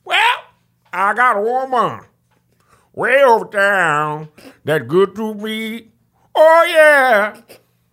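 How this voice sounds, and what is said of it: Imitates another person's singing voice. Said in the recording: “my Ray Charles impersonation”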